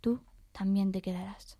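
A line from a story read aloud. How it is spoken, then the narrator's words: Whisper. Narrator (Spanish): un susurro detrás de ella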